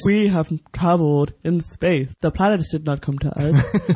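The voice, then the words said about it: Old man voice. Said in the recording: “I'm not doing an impression. I'm just talking in an old man voice.”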